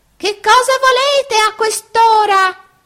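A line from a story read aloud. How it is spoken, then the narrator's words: Irritated old man shouting. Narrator (Italian): un vecchino gridò tutto stizzito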